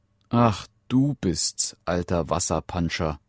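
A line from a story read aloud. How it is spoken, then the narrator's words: Plain. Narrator (German): sagte sie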